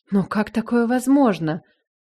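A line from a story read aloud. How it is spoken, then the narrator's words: Astonished breathless exhale. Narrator (Russian): Выдохнула изумленно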